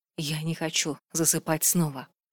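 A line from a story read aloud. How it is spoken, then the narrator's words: Whisper. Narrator (Russian): шепнула Вильварин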